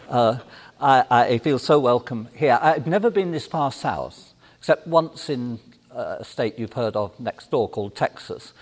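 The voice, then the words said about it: Speaks with a noticeable accent. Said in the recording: “I've got this funny accent and afraid I can't help that”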